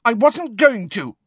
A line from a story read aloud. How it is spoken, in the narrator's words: shouted